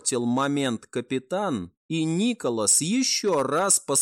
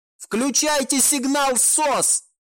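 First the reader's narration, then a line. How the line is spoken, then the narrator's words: Shouting captain. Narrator (Russian): прокричал капитан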